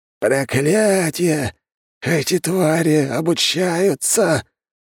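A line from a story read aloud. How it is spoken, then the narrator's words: Hissing old man. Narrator (Russian): прошипел старик в белом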